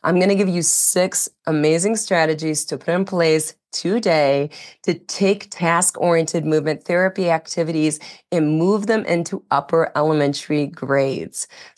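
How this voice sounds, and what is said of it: Raspy, hoarse voice. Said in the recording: “apologize for my voice. You may notice it is raspy, and that's because even though I'm over the flu, that was last week, now I have a respiratory infection in its place. So my voice continues to be raspy”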